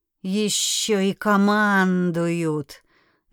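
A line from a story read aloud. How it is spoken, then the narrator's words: Displeased grunting. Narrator (Russian): недовольно прокряхтел хозяин пещеры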